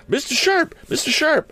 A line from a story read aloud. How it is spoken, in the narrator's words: cried the lad